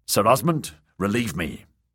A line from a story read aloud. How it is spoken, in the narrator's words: Jamie said sharply